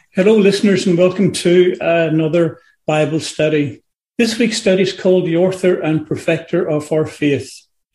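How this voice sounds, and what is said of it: Distinctive Irish accent. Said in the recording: “the distinctive Irish accent ... the Irish accent”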